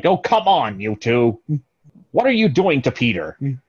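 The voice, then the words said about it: Imitates another person's voice. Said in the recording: “That's actually a really good one... my impression?”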